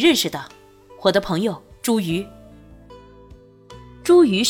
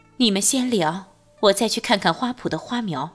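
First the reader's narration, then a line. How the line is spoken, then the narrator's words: Cool, detached. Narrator (Chinese): 淡淡道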